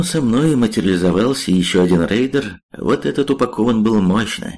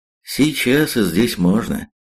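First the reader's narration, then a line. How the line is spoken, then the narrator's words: Calm. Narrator (Russian): спокойно сказал я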